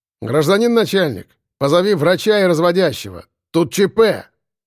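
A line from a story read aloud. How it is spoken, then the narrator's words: Loud shout. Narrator (Russian): громко крикнул Егор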